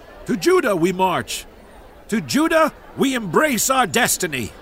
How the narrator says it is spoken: David lifted his voice to them, shouting with hope in his voice

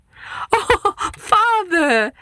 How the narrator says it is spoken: she said, gasping for air from laughter

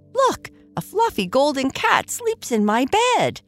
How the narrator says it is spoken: exclaimed, his tail wagging in excitement

